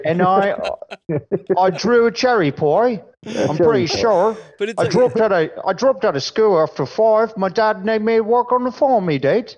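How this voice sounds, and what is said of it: Put-on rural English accent. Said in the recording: “What it sounds like is a country bumpkin English guy trying to do a Canadian accent.”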